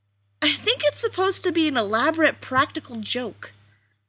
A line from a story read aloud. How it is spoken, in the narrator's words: Rodney exclaimed, with a surprising lack of disgust and annoyance